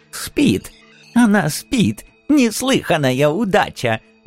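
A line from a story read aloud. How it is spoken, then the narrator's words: Old man's joyful cackle. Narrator (Russian): радостно закудахтал старичок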